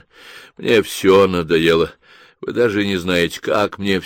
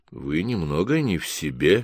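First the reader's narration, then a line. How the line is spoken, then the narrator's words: Gentle, soft. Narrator (Russian): мягко остановил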